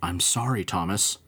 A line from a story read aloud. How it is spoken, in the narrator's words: Henry whispered